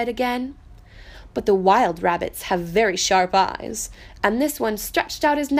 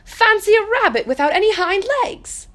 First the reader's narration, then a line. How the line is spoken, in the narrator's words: He began to laugh